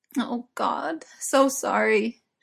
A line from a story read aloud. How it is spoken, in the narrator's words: she moaned, shivering